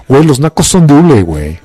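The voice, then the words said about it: Posh Mexican 'fresco' accent. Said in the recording (Spanish): “el acento fresco”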